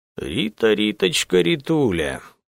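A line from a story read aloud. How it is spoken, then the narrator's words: Hoarse singsong, chilling laugh. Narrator (Russian): пропел он хриплым голосом и засмеялся таким смехом, что кровь застыла в жилах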